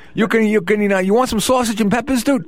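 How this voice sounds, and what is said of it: Put-on Bronx accent. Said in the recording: “I'm using my Bronx accent. ... That's not the way I really talk.”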